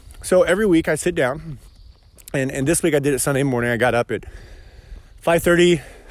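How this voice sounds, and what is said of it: Out of breath while talking. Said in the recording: “I'm out of breath. I'm out on a walk... if I get out of breath, it's because I'm in a vest, carrying a coffee mug, and I'm talking to you guys, and I'm walking up a hill at the same time”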